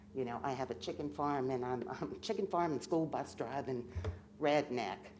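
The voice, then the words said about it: Howard County, Maryland accent. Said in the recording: “you haven't lost that accent. ... this is actually a Howard County accent. It's not a Sussex County accent.”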